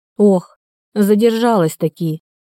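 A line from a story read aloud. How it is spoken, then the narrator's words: Rueful sigh. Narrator (Russian): сокрушенно вздохнула женщина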